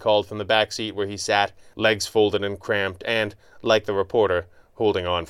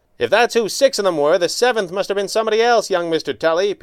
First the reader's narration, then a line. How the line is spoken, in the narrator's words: Peters chirped